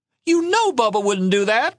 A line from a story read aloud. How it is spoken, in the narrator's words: Mama cried